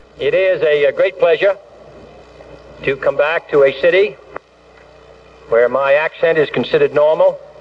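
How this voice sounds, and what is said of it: Boston accent. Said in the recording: “that Boston accent of his”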